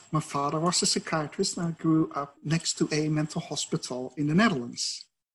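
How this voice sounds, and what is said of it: Dutch accent. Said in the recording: “you might hear from my accent, I'm Dutch.”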